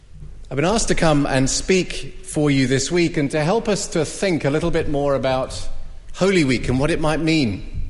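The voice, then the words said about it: English accent. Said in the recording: “As you can tell from my accent, I'm not from here. ... I come from Cambridge in England”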